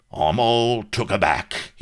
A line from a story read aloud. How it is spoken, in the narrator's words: roared